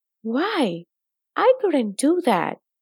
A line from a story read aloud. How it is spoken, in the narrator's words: he exclaimed right out loud